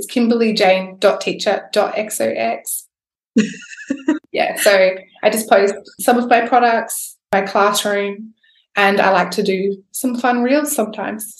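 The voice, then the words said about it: Speaks with a non-American accent. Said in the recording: “it's just nice to hear a fun little accent for a change”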